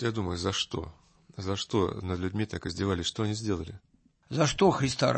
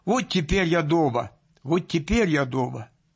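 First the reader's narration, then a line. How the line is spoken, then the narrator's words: Excited trembling shout. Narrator (Russian): Затрясся от волнения и закричал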